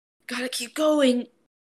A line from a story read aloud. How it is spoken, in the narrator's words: Izuku wheezes